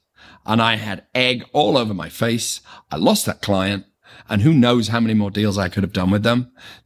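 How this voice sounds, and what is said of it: Speaks with a noticeable accent. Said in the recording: “I've got this nice accent. Well, at least I think it's nice.”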